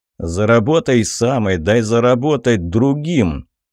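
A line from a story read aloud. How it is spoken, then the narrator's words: Booming drone. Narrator (Russian): прогудел Тицков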